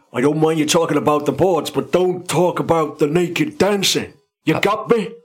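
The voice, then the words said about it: Poor imitation of another person's voice. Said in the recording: “That's how Matt Biolis talks, by the way... That was like the worst impression”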